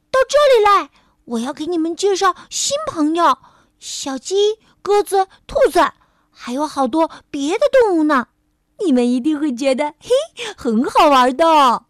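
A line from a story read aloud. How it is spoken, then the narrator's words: Shouting. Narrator (Chinese): 皮埃尔喊了起来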